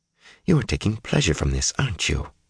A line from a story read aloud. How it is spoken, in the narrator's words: Swan said fiercely